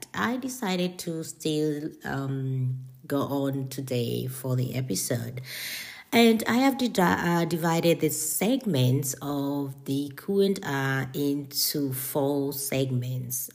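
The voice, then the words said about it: Hoarse, scratchy recovering voice. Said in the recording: “Excuse me because of my voice. I'm a little bit cold, or I had a flu the whole week, so my voice is kind of recovering, just like getting back to normal, and I still have some scratches in”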